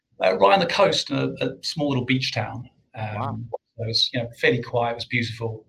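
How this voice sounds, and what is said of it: South African accent. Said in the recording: “Your accent, you can hear it. ... now that you've said it, I can hear your accent.”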